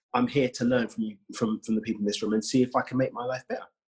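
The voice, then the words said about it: British accent. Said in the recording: “I'm from the UK, as you may know from my accent.”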